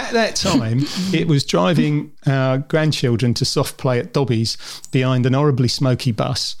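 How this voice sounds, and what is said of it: Usual voice. Nothing is said of it.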